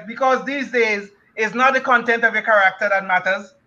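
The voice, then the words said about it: Speaks with an immigrant accent. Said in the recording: “I speak with this immigrant accent”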